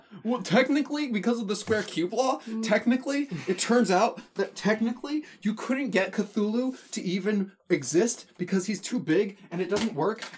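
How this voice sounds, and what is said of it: Manic, rambling insane-person voice. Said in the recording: “my impression of an insane person”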